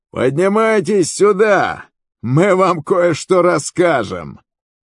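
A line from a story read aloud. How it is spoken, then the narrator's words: Guards shouting. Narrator (Russian): стоявшие на страже кричали Иоанафану и его оруженосцу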